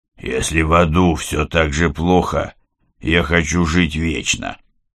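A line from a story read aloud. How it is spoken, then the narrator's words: Hoarse rasp after coughing. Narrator (Russian): Кири надсадно прокашлялся и прохрипел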